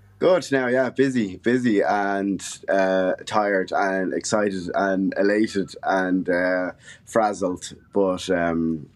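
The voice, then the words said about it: Dublin Irish accent. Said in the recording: “that wonderful accent you have ... the Dublin accent”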